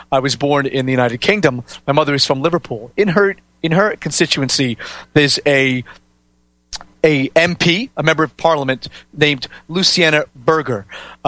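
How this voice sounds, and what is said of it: North American accent. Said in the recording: “my quite North American accent”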